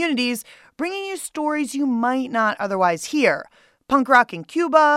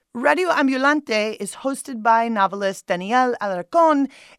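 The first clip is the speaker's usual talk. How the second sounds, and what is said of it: Faked Spanish accent. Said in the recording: “I totally faked that Spanish accent.”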